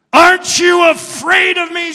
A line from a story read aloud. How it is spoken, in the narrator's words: Satan roared